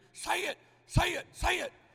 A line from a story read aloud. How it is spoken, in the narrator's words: in my ear screaming